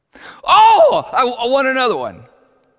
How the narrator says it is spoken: Susan just yelled out

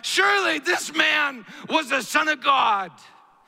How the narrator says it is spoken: the terrorists, that is the Roman centurion and those that were with him, cried out

